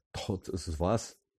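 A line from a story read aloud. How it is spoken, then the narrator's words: Trembling voice. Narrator (Ukrainian): почала вона тремтячим голосом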